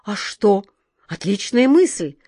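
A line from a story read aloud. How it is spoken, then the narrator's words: Enthusiastic exclamation. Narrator (Russian): с увлечением воскликнул капитан Тинтиныч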